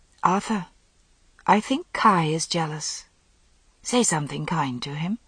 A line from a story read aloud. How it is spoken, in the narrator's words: said softly